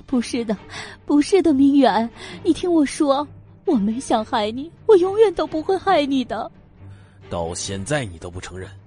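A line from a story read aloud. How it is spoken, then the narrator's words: Desperate crying. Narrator (Chinese): 事到如今，他也顾不得什么了 哭道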